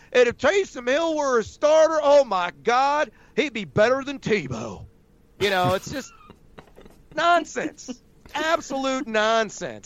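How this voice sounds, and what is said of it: Put-on Southern accent. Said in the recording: “I have no idea where that Southern accent came from.”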